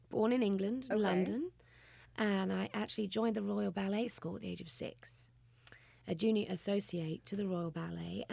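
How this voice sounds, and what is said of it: British English accent. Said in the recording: “your fabulous accent ... Well, obviously, I'm British. I'm from England.”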